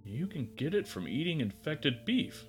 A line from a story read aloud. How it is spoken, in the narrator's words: Gary said wistfully